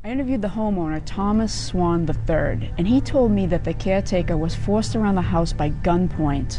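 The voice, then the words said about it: Strong Boston accent. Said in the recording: “Let's talk about New York, Boston, British accent ... Boston Globe reporter Emily Sweeney, who has been going viral recently on social media, basically because of her accent”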